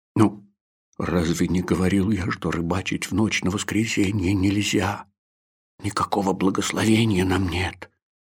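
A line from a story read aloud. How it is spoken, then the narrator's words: Sullen mutter. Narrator (Russian): угрюмо буркнул Маттелосось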